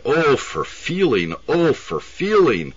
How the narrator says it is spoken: she cried

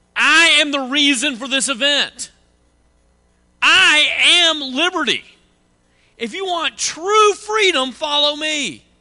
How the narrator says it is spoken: he started screaming

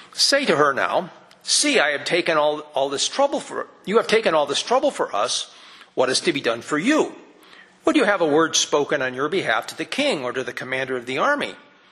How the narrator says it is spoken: She answered,

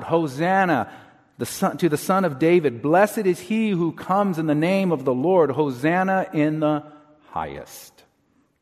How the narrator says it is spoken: They begin to shout

